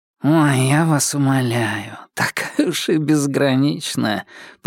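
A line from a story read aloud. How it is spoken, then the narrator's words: Nasal. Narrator (Russian): прогнусавил кто-то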